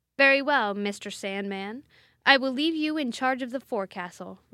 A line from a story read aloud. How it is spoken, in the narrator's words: replied with a light laugh